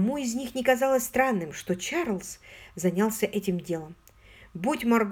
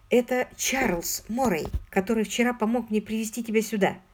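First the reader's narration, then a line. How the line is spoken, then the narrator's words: Plain. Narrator (Russian): сказала Маргарет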